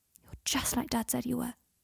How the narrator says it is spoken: he whispered into his ear

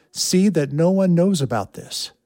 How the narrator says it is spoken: Jesus sternly warned them

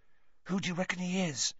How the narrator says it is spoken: Ron hissed

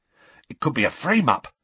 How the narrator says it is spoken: Ron exclaimed excitedly

